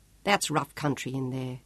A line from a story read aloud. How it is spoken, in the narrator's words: Sean murmured